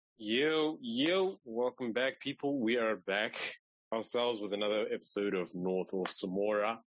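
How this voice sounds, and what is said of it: Put-on English British accent. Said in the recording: “Pardon the English accent ... Apparently I'm a little British today.”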